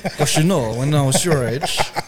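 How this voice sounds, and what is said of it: Elvis-like voice with Filipino accent. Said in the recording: “Why is he talking like Elvis? ... like it's almost Elvis, but there's still the Filipino accent in there.”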